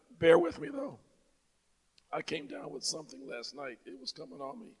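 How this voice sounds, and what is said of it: Weak, strained sick voice. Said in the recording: “As you can hear from my voice, I'm having some issues today... you see my voice weakening”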